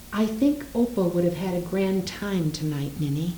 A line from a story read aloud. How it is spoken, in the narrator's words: I said softly